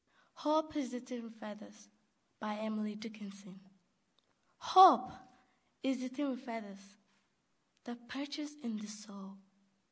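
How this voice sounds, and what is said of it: Non-American accent, nuanced reading. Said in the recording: “read by someone who is new to America ... Her accent is different from most people around here, yet she gives a nuanced reading.”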